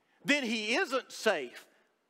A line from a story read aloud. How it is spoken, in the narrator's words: Lucy said